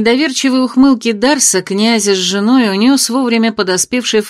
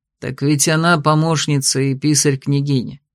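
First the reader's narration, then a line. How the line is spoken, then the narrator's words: Calm explanation. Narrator (Russian): спокойно объяснил ему Тируй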